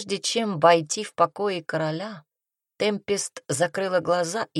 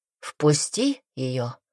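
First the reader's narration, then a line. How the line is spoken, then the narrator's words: King's deceptively soft, frightening voice. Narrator (Russian): Пугающий голос короля Дестина ответил обманчиво мягко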